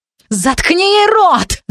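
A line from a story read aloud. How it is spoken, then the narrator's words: Witch shrieking. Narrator (Russian): завизжала ведьма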